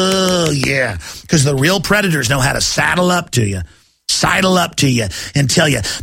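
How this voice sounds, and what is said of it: Usual voice. Nothing is said of it.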